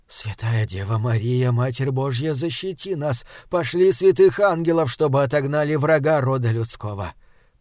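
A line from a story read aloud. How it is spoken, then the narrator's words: Frightened whisper, priest. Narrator (Russian): прошептал отец Максимилиан, безотчетно пугаясь странного существа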